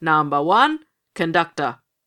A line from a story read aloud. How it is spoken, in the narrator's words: roared the ring steward in a voice like thunder